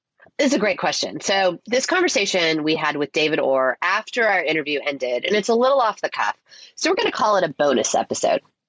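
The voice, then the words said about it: Stuffed-up, congested voice. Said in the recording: “just getting over a cold, so I sound a bit stuffed up.”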